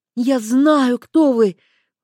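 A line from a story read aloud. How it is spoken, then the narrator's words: Breathless female voice. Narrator (Russian): выдохнула она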